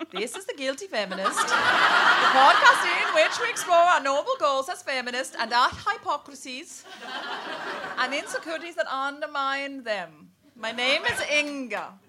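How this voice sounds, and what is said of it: Put-on Danish accent. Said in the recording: “Could you do it with a Danish accent so they think it's me?”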